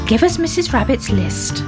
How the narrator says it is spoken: said Grandpa Ted

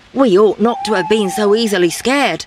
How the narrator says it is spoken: said the leader

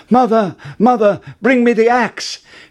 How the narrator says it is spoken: called out

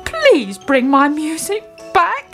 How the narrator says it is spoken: he pleaded

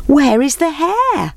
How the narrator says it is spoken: They called out

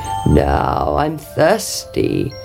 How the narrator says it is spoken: croaked the frog

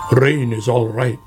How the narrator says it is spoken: grumbled Badger

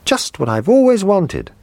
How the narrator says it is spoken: he cried

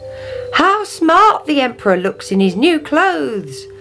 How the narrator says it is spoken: they cried

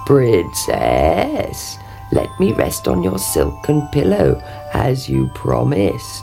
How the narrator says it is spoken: he croaked

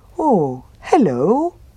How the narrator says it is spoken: said the bear happily

